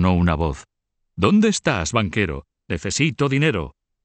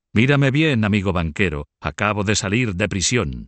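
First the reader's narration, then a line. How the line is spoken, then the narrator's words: Exclaimed. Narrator (Spanish): exclamó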